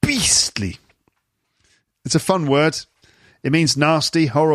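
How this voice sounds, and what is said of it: Usual voice. Nothing is said of it.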